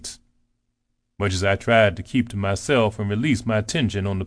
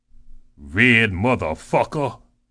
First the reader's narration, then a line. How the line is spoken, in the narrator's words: he spat